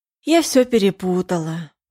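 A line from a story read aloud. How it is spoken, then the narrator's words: Sighing. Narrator (Russian): вздохнула Лиза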